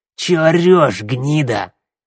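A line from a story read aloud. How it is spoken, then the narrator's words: Barking. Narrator (Russian): Рявкнул косой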